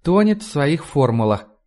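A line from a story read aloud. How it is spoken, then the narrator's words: Sighing. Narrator (Russian): вздохнула Сьюзи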